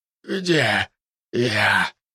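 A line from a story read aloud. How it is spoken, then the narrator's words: Hoarse croak. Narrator (Russian): прохрипел тот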